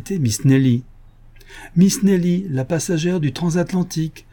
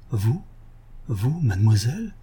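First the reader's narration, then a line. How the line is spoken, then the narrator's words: Shaken murmur. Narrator (French): Arsène murmura, bouleversé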